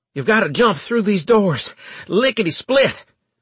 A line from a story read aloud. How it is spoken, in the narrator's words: Leeson said, panting and alarmed